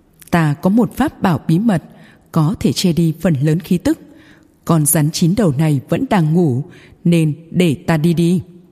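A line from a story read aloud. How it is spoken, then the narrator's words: Smiling. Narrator (Vietnamese): Mộ Minh Tuyết lại mỉm cười nói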